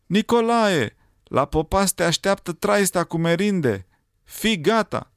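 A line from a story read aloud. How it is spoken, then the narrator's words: Sudden shout. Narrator (Romanian): un pescar a strigat deodată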